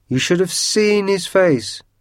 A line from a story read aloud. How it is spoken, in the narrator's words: yelled Georgie